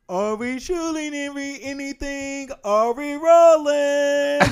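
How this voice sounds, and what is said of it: Oprah impression. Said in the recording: “his Oprah impression”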